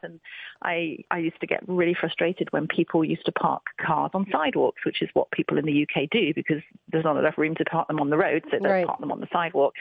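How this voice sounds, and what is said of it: British accent. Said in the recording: “I'm from the UK originally, you can probably tell from my accent”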